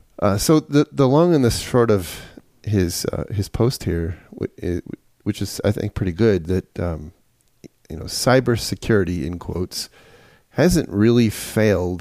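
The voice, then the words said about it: Southern American accent. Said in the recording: “my southern dialect here”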